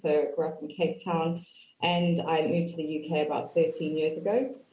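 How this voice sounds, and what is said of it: South African accent. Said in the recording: “I have worked across South Africa, for those of you that recognize the accent.”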